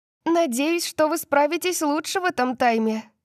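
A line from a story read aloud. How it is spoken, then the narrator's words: Calling after someone. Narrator (Russian): крикнула Гвен нам вслед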